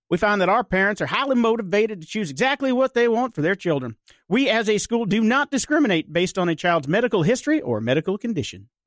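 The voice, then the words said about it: North Carolina accent. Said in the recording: “my North Carolina accent? I haven't lived there for like 20 years, but I think I still got it somewhere”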